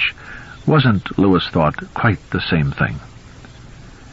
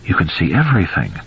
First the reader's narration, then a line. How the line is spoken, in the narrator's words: Rachel said in a low, awed voice